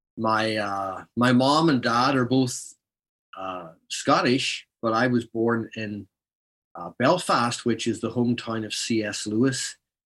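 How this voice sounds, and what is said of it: Northern Irish Ulster Scots accent. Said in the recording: “this is a true Scots Irish accent”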